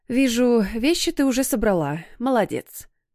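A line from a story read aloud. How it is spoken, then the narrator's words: Sigh, restrained smile, mother. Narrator (Russian): вздохнула мама и, сдержанно улыбнувшись, сообщила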